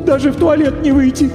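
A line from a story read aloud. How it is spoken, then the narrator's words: Sorrowful sob. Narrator (Russian): горестно всхлипнула дама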